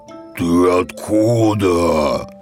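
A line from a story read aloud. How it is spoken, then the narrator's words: Menacing question, bear. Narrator (Russian): грозно спросил медведь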